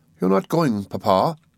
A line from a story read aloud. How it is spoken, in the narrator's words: said Agnes anxiously